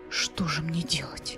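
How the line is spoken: Whisper. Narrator (Russian): прошептал он

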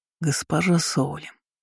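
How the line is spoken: Muffled exhale. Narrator (Russian): глухо выдохнул

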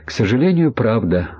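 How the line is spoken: Sighed. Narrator (Russian): вздохнул Ахмед

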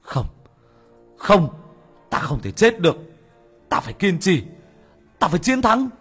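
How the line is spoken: Screaming. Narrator (Vietnamese): Bác cổ gào lên

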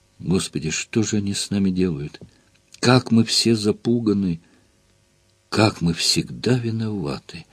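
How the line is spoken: Exhausted whisper. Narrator (Russian): прошептал обессиленно

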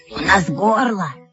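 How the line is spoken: Hoarse, two voices. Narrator (Russian): хрипло сказали оба брата

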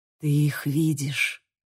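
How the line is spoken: Breathless. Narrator (Russian): выдохнул Бейл

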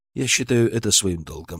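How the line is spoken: Calm. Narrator (Russian): спокойно ответил я

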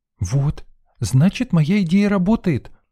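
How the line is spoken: Exclaimed. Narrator (Russian): воскликнула Лена

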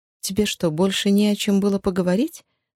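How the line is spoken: Dry question. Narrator (Russian): сухо спросила Розмари

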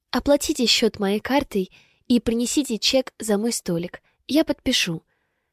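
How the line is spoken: Sugary sweet voice. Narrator (Russian): сладчайшим голосом произношу

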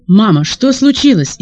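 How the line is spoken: Frightened question. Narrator (Russian): испуганно спросил Андрей

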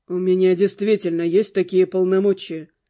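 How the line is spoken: Calm confirmation. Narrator (Russian): спокойно подтвердил Руперт

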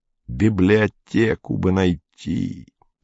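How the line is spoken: Moaning. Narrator (Russian): простонал Фокин

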